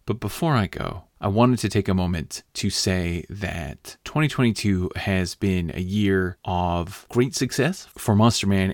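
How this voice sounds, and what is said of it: Slightly hoarse voice. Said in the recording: “I'm sure you can hear that my voice is a little hoarse right now.”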